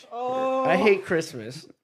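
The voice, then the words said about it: Jim Carrey's Grinch voice. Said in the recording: “You sound like the Grinch, dude. You sound like Jim Carrey's Grinch ... There's your Sean Connery accent. Ended up evolving into the Grinch ... This is totally the Grinch”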